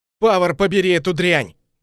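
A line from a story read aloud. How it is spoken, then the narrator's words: Loud cursing. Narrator (Russian): Громко ругаясь, Кассиус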